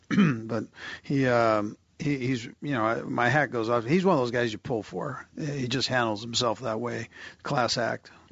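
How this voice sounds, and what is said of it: Hoarse, strained voice. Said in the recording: “I'm losing my voice here. Too much screaming last night.”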